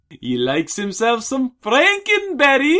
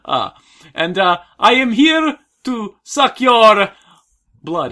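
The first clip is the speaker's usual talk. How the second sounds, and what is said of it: Vampire character accent. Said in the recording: “Breaking character ... that accent”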